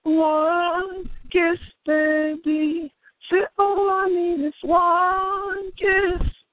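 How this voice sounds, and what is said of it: Harsh, strained singing voice. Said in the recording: “My voice is kind of acting up on me ... I sound kind of harsh”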